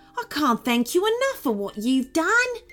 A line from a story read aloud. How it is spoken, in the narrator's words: he said happily